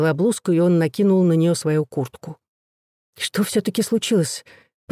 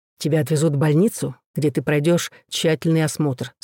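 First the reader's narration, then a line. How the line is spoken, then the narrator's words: Plain. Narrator (Russian): сказал Макферон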